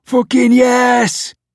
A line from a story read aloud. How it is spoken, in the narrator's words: Kev shouted